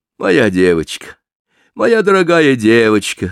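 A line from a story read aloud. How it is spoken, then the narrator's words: Exclaimed. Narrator (Russian): воскликнула миссис Вейн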